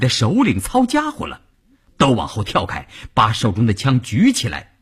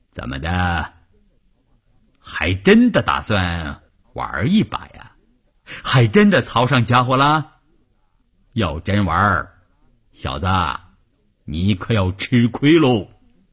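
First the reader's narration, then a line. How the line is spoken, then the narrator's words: Plain. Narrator (Chinese): 关山林说着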